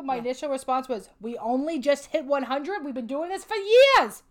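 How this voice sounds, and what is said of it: Old New York woman accent. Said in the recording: “turn into a New York, old New York woman”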